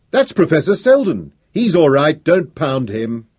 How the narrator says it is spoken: Someone in the crowd shouted

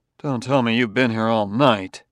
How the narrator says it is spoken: The commissioner grunted

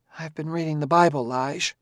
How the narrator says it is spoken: Jesse said in a small voice

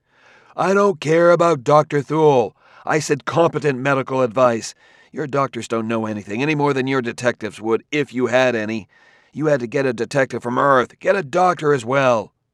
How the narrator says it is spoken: He cried at the top of his voice

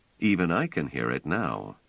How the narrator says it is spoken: Trevise said dryly

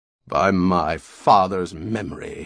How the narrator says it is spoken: he rumbled savagely

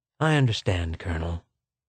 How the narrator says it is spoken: said the secretary calmly

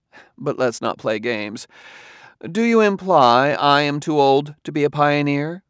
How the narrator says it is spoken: She broke into laughter again, then said

